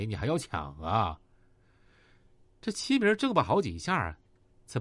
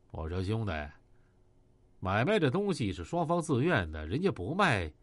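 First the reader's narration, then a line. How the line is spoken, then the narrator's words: Cold. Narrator (Chinese): 张海波冷冷的说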